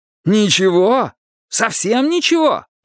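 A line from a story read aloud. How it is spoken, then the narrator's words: Moaning. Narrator (Russian): простонал Винкат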